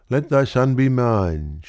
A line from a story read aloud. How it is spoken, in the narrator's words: she pleaded